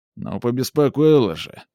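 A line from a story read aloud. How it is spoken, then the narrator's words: Grumbled mutter. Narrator (Russian): буркнула фигура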